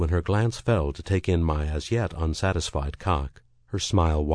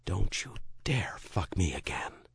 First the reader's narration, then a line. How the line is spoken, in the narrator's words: she whispered